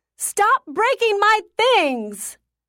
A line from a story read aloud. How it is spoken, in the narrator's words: I screamed